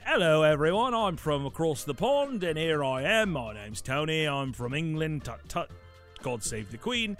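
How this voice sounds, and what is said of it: Put-on British accent. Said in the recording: “I'm going to start by using a British accent.”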